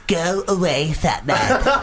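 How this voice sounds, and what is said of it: Cartman cartoon character voice. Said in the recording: “You sound like Cartman. ... That's quite good.”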